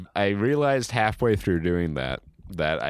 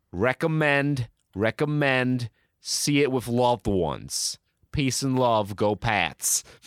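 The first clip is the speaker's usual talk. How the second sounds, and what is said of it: Boston accent blending into Brooklyn. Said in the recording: “I haven't quite repaired the walls between my Boston and like Jewish Brooklynite accents. So certain words that I'm more keyed into with the Boston accent, I was able to keep going with, but there were other things that were bled over.”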